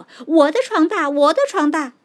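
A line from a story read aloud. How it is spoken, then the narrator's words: Eager, competing voices. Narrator (Chinese): 争着说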